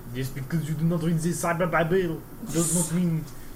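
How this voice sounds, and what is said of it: Put-on French accent. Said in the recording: “That is a French accent. ... That's totally a French accent. ... That's an accurate French accent”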